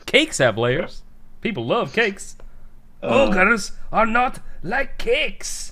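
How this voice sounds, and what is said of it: Shrek character accent. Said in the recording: “That's my Shrek accent ... You're a lot better at the accent than I am.”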